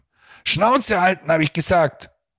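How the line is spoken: Threatening shout. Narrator (German): schrie Silvio drohend

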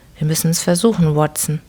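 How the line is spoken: Plain. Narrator (German): sagte Holmes

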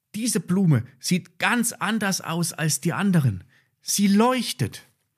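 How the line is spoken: Calling out. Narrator (German): rief Ben

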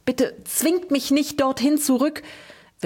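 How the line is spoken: Whimpering. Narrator (German): wimmerte er

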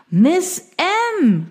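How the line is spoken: Calling out. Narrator (German): rief er

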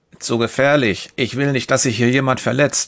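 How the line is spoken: Plain. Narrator (German): sagt er

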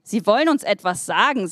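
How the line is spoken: Plain. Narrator (German): sagte der Engel

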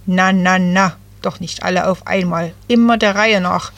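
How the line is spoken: Croaking. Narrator (German): krächzte Jay

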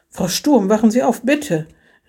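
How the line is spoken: Exclaimed. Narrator (German): rief er aus

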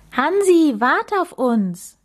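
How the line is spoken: Calling after someone. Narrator (German): rief Maxim hinterher

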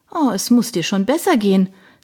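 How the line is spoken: Cheerful. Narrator (German): sagte Darina fröhlich

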